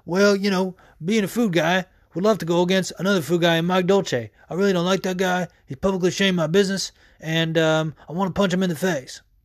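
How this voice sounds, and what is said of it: Imitates another person's voice. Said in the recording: “that's not a bad George Lockhart imitation if you've ever heard him speak”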